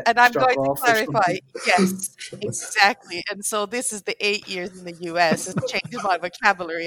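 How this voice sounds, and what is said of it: British accent. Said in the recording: “my fake British accent”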